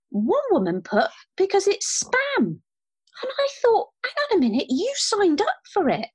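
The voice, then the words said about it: High-pitched, angry voice. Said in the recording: “my voice is getting a little bit high-pitched because I'm getting a bit angry”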